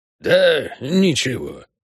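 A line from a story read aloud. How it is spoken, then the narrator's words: Sigh. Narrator (Russian): вздохнул гоблин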